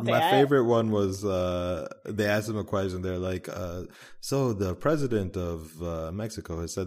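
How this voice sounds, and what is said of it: Usual voice. Nothing is said of it.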